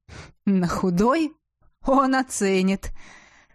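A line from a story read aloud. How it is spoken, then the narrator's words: Laughing. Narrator (Russian): рассмеялся Ивар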